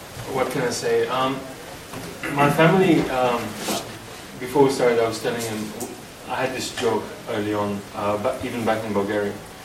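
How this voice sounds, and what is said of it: Bulgarian accent. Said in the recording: “I'm of Bulgarian background... Still haven't lost the accent.”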